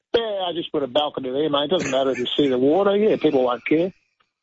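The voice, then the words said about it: Australian accent. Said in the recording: “your Australian accent is on point. It's magnificent.”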